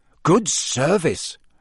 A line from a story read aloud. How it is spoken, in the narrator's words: Ron said, in an impressed voice